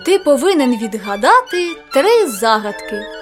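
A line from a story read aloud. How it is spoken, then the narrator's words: Plain. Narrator (Ukrainian): сказали вони Жакові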